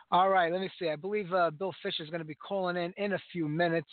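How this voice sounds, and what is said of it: Hoarse voice. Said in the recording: “I'm very hoarse still.”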